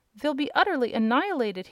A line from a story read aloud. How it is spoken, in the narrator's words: he gasped